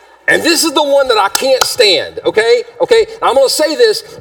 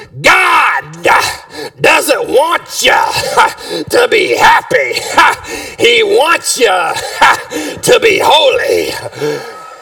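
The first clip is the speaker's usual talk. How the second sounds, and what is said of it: Preacher voice. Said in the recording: “say in my preacher voice”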